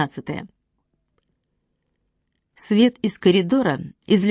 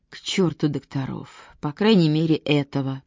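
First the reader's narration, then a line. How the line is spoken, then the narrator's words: Grumbling. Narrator (Russian): проворчал Чейз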